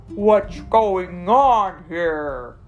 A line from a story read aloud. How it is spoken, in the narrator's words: A booming voice shouted